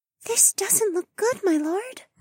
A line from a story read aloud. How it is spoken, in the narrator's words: Mariah whispered